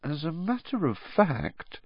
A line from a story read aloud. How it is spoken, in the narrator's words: she added, her voice now trembling slightly